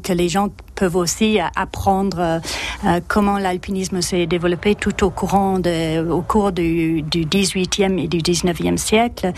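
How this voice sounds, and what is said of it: French spoken with English accent. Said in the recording (French): “Ce petit accent anglais”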